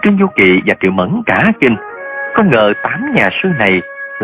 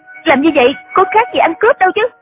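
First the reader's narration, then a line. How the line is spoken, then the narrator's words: Angry. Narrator (Vietnamese): Triệu Mẫn giận dữ nói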